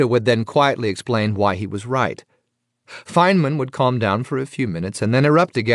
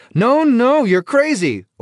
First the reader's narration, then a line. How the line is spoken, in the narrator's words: everyone in the building could hear Feynman yelling